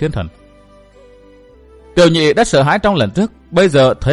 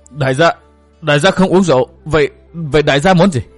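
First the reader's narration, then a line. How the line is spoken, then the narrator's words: Startled stammering. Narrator (Vietnamese): Tiểu nhị giật mình ấp úng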